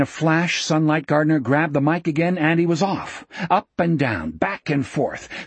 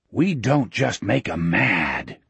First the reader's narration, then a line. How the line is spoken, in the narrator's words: said in a hoarse conspirator's whisper